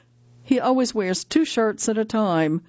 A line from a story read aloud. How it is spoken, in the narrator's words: Anne-Marie says with a giggle